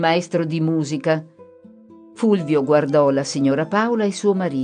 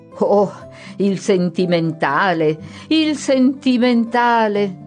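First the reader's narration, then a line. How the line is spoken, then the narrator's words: Several voices exclaiming. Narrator (Italian): esclamarono due o tre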